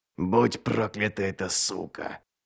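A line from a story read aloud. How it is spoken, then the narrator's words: Forced through a smile. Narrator (Russian): выдавил Ральф сквозь улыбку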